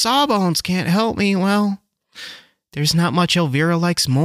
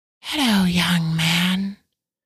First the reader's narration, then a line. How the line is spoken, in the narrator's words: Elvira hissed